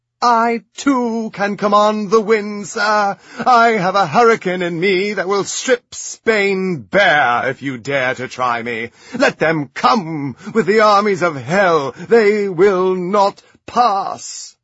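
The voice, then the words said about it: Bellowing regal queen impression. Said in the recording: “best Cate Blanchett impression ... bellowing and carrying on as the Virgin Queen”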